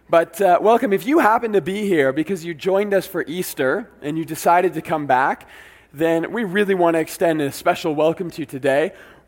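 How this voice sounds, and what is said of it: Weak voice from a cold. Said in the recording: “my voice is a little weaker than normal. It's all right, I got a bit of a cold”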